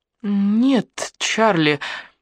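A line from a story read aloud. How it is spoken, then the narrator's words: Uncertain. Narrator (Russian): неуверенно сказала Элли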